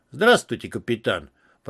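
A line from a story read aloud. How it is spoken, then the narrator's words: Deep bass voice. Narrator (Russian): пробасил хозяин Севера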